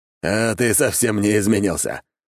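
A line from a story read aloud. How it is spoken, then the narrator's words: Wry snort. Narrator (Russian): хмыкнул Таранов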